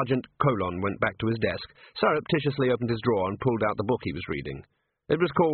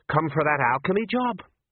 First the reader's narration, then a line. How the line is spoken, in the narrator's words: A dwarf smiled nervously